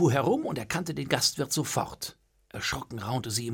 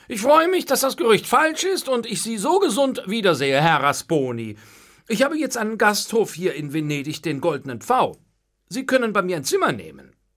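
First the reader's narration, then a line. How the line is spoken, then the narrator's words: Throat-clearing, loud and clear. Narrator (German): räusperte sich und sagte dann laut und vernehmlich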